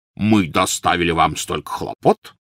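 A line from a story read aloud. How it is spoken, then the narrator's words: Resonant bass voice. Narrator (Russian): звучным басом произнес он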